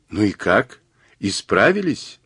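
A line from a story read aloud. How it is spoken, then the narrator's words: Asking after laughing. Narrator (Russian): отсмеявшись, спросила Джен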